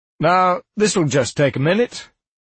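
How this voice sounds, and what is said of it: British accent. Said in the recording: “a British accent of some flavor I didn't recognize”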